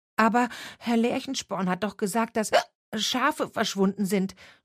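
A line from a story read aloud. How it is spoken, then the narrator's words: Stuttering with hiccups. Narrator (German): stotterte Wim, der einen Schluck auf hatte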